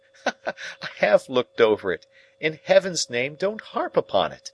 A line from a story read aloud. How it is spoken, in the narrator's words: Some sense of the grimly ludicrous moved me to a fretful laugh as I replied